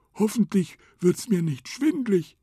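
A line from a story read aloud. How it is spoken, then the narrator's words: Elephant calling out. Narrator (German): rief der Elefant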